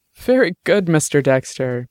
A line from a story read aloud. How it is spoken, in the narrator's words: Bish said, laughing freely